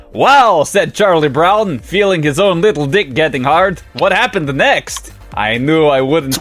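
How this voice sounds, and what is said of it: Put-on Transylvanian accent. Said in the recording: “Why is Transylvania now the accent?”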